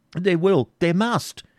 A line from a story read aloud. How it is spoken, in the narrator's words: exclaimed Isaac, in agony